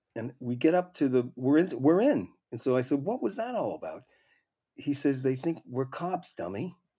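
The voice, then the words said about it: Boston accent. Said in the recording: “the Boston accent”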